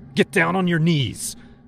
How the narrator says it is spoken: I hollered

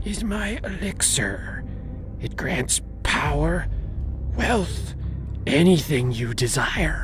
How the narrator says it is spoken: whispered

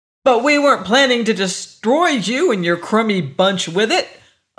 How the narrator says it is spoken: Augie shouted, incensed at the Jovian's condescending air

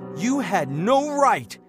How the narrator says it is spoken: he shouted, his face turning red

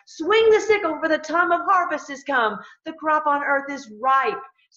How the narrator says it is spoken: another angel ... shouted to the one sitting on the cloud

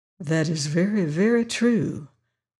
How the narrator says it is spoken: murmured the Virginian

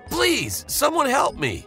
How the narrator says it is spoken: I shouted

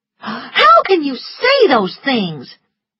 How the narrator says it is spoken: she said angrily

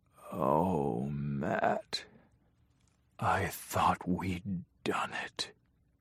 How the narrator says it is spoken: he whispered

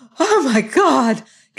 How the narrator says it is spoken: gasped Mrs

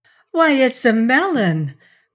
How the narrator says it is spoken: cried Trot delightedly

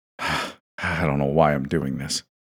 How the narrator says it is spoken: muttered

